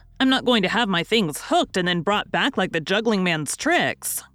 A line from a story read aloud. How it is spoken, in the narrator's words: cried Tommy